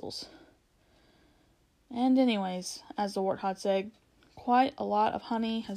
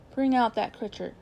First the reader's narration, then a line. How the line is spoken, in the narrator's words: said Aslan